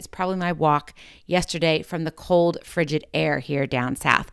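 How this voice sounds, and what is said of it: Slightly raspy voice. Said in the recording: “my voice is a little raspy today”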